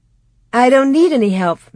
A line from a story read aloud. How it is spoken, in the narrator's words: Mary said happily